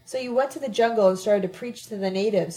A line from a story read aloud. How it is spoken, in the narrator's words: Sabina exclaimed sarcastically